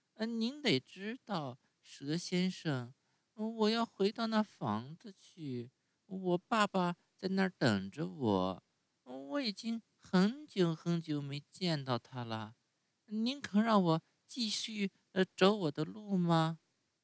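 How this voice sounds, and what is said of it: Sweet, thin, ingratiating voice. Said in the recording (Chinese): “用很甜很细的声音讨好的对他说 ... 很甜很细的声音说”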